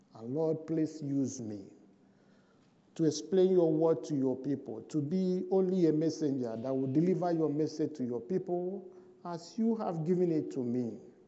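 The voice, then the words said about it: Heavy foreign accent. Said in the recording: “I know I have a heavy accent.”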